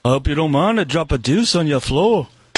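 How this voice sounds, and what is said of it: Put-on British accent. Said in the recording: “incredible impression of a British person speaking ... Now that sounded a little bit more like George Harrison.”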